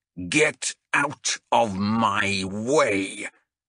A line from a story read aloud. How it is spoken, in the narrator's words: Vermeer thundered